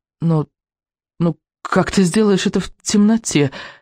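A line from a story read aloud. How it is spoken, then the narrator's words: Stammering question. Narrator (Russian): заикаясь, спросил он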